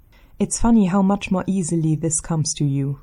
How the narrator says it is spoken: Derek says

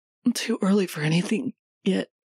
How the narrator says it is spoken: Minho says, his voice breaking at the end

